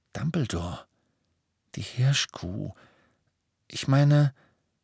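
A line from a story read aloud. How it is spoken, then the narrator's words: Quiet, slightly embarrassed. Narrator (German): Ron blickte ein wenig verlegen, sagte aber mit leiser Stimme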